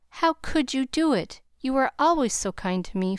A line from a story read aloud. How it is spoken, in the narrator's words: faltered Nat, feeling a strong desire to hug his friend and cry